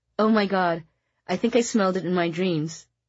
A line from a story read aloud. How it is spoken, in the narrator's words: exclaimed